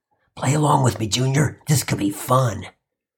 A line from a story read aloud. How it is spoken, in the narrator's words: Bob whispered under his breath